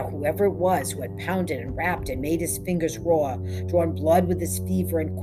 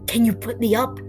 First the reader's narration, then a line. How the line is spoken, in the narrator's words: Lottie had cried from 600 miles away